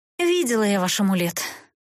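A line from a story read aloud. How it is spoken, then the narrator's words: Weary sigh. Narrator (Russian): устало вздохнула Эста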